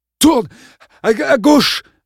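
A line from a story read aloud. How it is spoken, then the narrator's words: Male panting. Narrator (French): haleta-t-il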